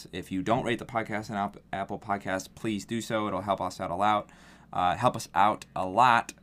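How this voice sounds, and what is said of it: Fast, slightly slurred speech. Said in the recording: “I'm starting to slur my words here. ... I'm talking too fast.”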